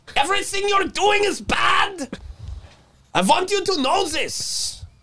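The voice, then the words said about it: Put-on dictator accent. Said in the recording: “Our algorithms are going down just with that accent ... It really scares people off ... how that guy yelled so much”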